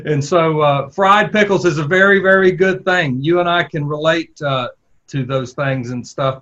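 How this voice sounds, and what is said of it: Southern US accent. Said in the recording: “I could tell by your accent, you could probably tell by my accent, that we were both from the South”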